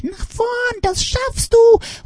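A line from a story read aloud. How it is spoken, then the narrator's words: Mother calling from afar. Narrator (German): ruft eine Mutter von der anderen Seite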